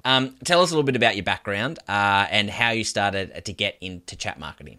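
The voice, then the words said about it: Melbourne Australian accent. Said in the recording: “a fellow Melburnian. No doubt you can hear by our accent”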